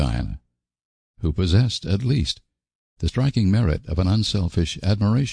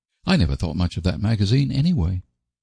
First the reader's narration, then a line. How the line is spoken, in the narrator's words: said Diana hotly